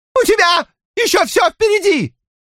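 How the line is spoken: Shrill squeal. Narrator (Russian): взвизгнула Донна

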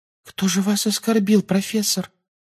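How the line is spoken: Babbled timidly. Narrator (Russian): пролепетала Парвати

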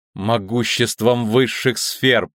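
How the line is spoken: Weak exhausted moan. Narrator (Russian): простонала чародейка, собирая остатки сил

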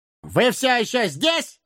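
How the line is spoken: Bark. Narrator (Russian): гаркнул он

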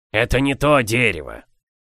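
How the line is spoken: Grumbling. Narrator (Russian): ворчал он

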